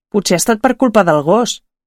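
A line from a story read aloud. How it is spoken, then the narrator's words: Calm niece. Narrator (Catalan): va dir la neboda tranquil·lament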